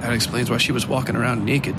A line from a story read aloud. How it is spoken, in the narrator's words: the young native man sitting across the aisle from Ducky muttered